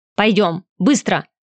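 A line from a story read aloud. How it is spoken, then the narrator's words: Sharp bark. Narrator (Russian): рявкнула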